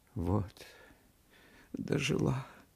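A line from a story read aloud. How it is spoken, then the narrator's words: Tearful. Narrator (Russian): проговорила она сквозь слезы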